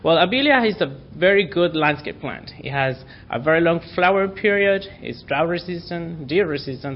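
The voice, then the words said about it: Speaker's own accent. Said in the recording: “Probably is my accent.”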